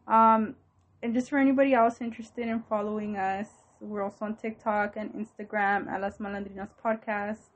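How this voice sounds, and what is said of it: Out of breath. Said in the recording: “I ran out of breath.”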